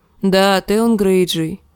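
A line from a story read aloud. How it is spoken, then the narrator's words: Sighing. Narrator (Russian): вздохнул Тирион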